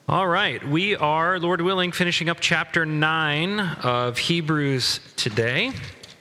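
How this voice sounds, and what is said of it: Put-on radio announcer voice. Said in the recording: “put on my radio voice for you all. ... Or my dad voice. ... They're actually remarkably similar.”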